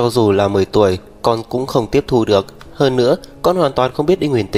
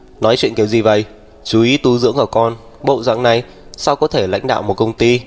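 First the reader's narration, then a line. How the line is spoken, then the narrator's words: Cold tone. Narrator (Vietnamese): Đỗ Viễn Minh lạnh lùng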